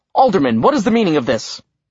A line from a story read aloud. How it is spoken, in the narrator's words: an older elf shouted